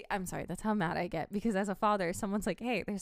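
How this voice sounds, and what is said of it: Usual voice. Nothing is said of it.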